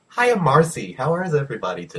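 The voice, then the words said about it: Put-on American accent. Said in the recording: “Why are you doing an American accent?”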